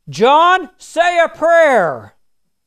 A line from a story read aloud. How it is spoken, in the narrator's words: Terrified, one shouted